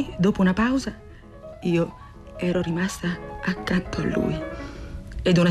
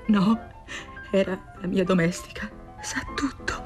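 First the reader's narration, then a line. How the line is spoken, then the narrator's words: Anguished murmur. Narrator (Italian): E lei, diritta come una statua, pietrificata dall'angoscia, mormorò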